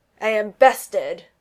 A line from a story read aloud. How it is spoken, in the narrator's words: in disgust and roared